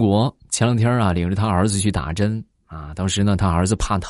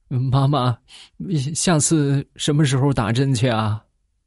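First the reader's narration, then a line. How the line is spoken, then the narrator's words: Tearful crying child. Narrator (Chinese): 小侄女 他是声泪俱下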